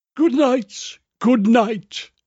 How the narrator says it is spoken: she cried

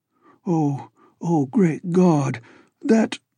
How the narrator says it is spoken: All he could do was moan half inaudibly

